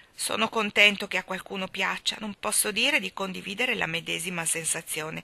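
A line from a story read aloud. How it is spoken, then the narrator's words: Gloomy, mournful tone. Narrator (Italian): disse il signor Sotto in tono lugubre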